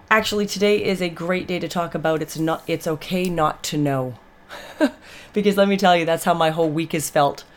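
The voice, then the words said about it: Voice slightly off, sick-sounding. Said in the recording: “my voice is a little off. I've just been fighting a summer cold”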